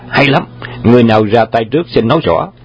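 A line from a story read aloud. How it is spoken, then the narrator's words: Laughing loudly. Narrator (Vietnamese): Đoàn hoàng gia cười lớn và nói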